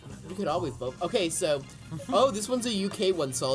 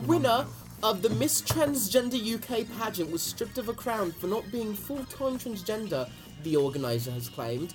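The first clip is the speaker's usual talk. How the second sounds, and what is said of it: Put-on British accent. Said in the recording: “I'll do it entirely in a British accent.”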